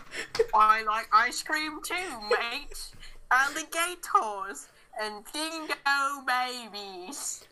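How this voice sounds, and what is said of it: Rough put-on Australian accent. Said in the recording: “practice your Australian accent ... That was pretty rough.”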